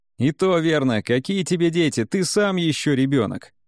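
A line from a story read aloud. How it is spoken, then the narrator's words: Laughing. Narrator (Russian): Рассмеялся Шуя Ганьюн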